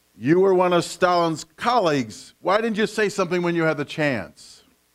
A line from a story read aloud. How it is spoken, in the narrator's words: A heckler in the crowd shouted